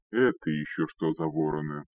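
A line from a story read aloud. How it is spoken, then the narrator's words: Grumbling, big man. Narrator (Russian): проворчал здоровяк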